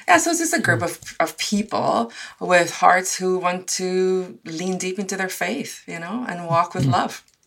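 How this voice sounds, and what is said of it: South African accent. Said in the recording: “your accent perhaps isn't Canadian purely primarily. You grew up in South Africa”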